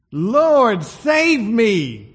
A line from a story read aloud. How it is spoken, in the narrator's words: Peter screams